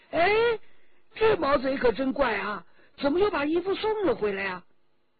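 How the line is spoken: Exclaiming. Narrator (Chinese): 周琦已经叫了起来

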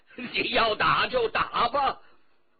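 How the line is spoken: Carried-away outburst. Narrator (Chinese): 乾隆听得忘了形，不禁叫了出来

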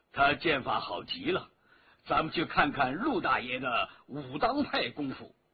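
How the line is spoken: Slight smile. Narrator (Chinese): 赵本山微微一笑

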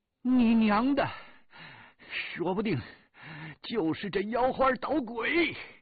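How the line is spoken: Shouting while hacking. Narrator (Chinese): 一边喊

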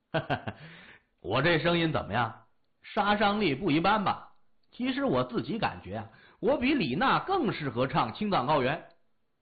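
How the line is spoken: Proud, chuckling. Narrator (Chinese): 李爽呵呵一笑，自豪地说

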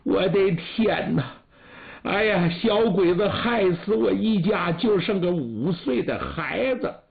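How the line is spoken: Woman sobbing. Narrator (Chinese): 有个女人坐在废墟上一个劲儿的哭

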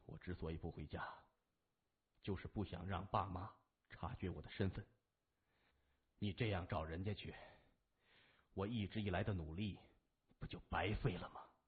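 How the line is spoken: Composed. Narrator (Chinese): 谢文东稳定了一下情绪，暗叹自己过于失态，说

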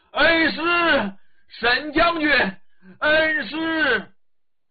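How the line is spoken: Shouting from outside. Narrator (Chinese): 外边喊起来了

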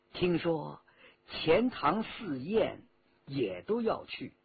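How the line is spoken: Low voice. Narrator (Chinese): 和珅 低声说

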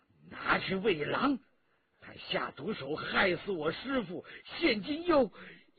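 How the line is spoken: Through gritted teeth. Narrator (Chinese): 于于同咬牙切齿

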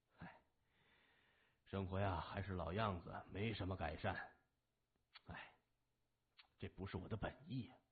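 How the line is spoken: Sighing. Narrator (Chinese): 谢文东摇头叹息着说

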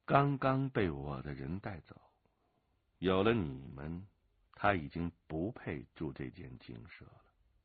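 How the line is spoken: Flat, indifferent tone. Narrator (Chinese): 陈随云淡淡的说

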